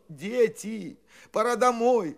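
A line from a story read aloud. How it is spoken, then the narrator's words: Adults pleading. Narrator (Russian): взмолились взрослые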